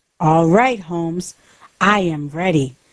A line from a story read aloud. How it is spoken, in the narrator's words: said Travis